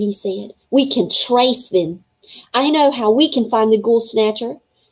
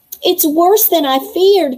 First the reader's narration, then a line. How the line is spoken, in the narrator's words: cried Zoe